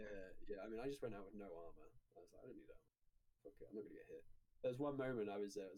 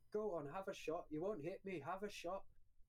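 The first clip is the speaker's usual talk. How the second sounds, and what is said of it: Badly done put-on accent. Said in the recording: “I'm aware my accent is god-awful”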